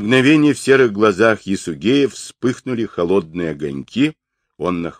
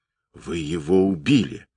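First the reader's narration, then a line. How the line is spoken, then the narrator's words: Whisper. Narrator (Russian): прошептала Ойлун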